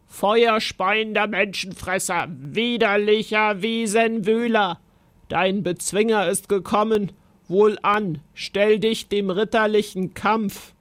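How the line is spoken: Knight roaring. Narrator (German): brüllte der Ritter

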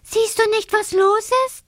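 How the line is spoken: Calling from afar. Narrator (German): ruft schon von Weitem zu

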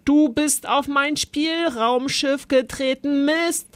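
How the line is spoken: Roaring. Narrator (German): brüllte Zolly

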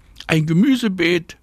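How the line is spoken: Calling back. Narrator (German): ruft Anna zurück

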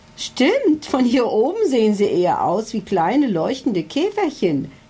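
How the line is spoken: Adviser giggling. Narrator (German): kicherte sein Berater Hubert Schlauenstein

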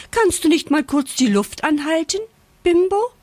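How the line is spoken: Piglet squealing. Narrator (German): quiekt das Ferkel Rosa

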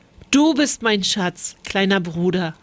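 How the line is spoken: Plain. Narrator (German): antwortete er

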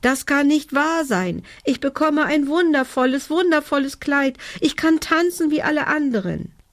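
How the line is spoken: Called out. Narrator (German): rief

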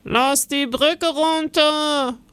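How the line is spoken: Sudden call from guard. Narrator (German): ruft plötzlich ein Wachmann

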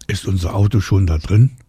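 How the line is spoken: Plain. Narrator (German): fragt Isa

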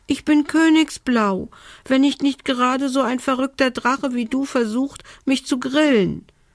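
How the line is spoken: Squeaky voice. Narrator (German): piepste die Elfe

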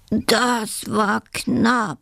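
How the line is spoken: Cheeky badger groaning. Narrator (German): stöhnt der freche Dachs

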